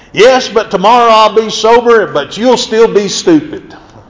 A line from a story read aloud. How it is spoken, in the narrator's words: the drunk yelled right back